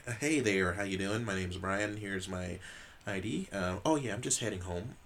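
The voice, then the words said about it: Put-on white person voice. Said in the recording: “do a white person voice ... I put it on”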